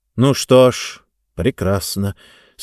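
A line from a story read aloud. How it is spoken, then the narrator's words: Tired, smiling. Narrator (Russian): сказал он и устало улыбнулся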